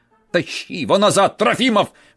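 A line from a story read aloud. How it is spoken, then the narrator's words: Winemaker's furious shout. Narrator (Russian): в бешенстве закричал винодел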